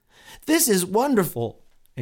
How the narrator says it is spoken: exclaimed Pliable

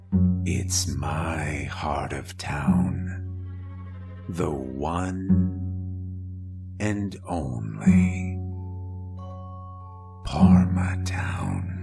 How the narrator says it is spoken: a faint voice whispering

